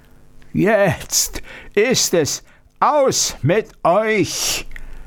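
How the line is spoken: Monstrous roar. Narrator (German): brüllte das Ungeheuer

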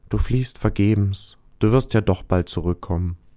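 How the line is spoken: Sad, quiet. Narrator (German): Der Stern traurig sagte leise

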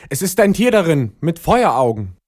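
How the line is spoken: Horrified repeated shouting. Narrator (German): entsetzt, rief in einem fort

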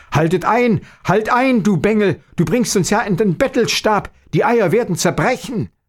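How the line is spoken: Father crying out in fright. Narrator (German): dass der Vater erschrocken rief

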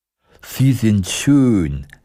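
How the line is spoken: Sighing. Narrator (German): seufzte der Scheuch

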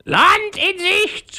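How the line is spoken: Parrot screeching. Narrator (German): schrie der Papagei

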